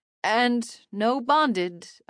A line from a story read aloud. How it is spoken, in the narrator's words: I added with a strained laugh, like it didn't bother me at all